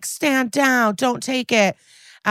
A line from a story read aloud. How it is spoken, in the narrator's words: Benson, of course, screams